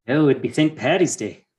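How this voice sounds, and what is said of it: Poor attempt at Irish accent. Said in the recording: “That was my attempt at an Irish accent. ... Not great.”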